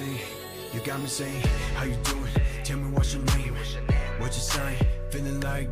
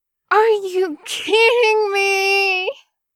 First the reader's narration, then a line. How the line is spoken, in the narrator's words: Mian Mian moans from the back room